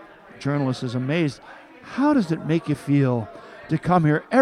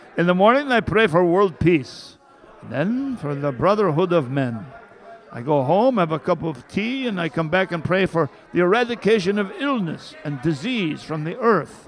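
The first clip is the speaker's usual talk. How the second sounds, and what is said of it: Put-on Jewish old man accent. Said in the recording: “This is my Jewish accent guy.”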